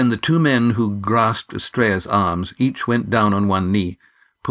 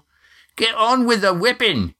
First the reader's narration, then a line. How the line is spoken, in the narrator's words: came a hoarse shout